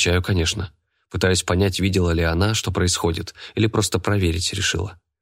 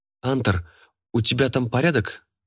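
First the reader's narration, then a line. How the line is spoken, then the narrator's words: Worried question. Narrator (Russian): спрашивает взволнованно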